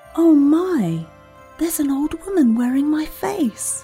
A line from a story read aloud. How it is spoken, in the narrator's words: exclaimed